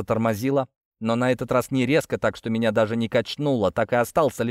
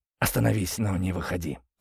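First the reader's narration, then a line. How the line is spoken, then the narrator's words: Hoarse rasp. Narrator (Russian): прохрипел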